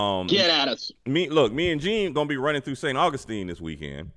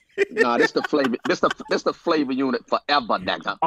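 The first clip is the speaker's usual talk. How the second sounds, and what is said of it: Imitates another person's voice. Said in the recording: “my fake beanie beanie impersonation... my beanie impersonation”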